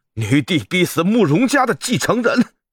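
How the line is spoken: Shouting. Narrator (Chinese): 安王趁机大喊

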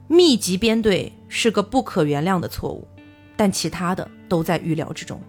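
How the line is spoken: Calm, flat. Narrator (Chinese): 张北海非常的平静，他只是淡淡的说了一句

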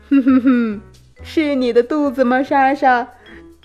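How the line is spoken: Smiling. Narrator (Chinese): 老师笑着对莎莎说

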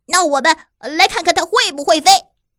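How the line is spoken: Loud shouting. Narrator (Chinese): 鹈鹕大叫着说

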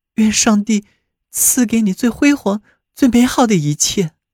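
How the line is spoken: Sighing. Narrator (Chinese): 巴贝特叹道

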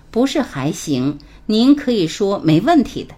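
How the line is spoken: Smiling. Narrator (Chinese): 我马上笑着对他说

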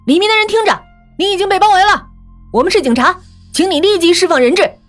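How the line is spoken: Loudspeaker shouting outside. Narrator (Chinese): 外面扬声器在喊

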